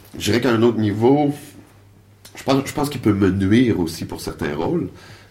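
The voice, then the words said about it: Québécois French accent. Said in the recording (French): “les deux derniers rôles que j'ai eus, sont typiquement québécois ... mon, accent m'a totalement servi ... il y, a un accent qui est présent”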